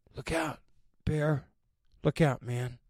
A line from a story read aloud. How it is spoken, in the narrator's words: I murmured